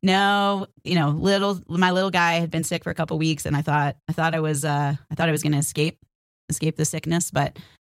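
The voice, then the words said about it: Sick, under-the-weather voice. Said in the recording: “I've been a little bit under the weather. I don't know if you can hear it in my voice.”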